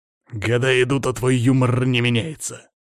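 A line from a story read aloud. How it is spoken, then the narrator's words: Raven grumbling. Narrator (Russian): проворчал ворон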